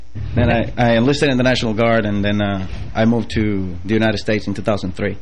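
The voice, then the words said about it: Puerto Rican accent. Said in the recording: “I like that accent too. ... how about that dialect”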